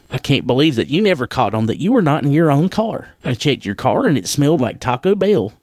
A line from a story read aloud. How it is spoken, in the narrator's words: said with an ease back half-chuckle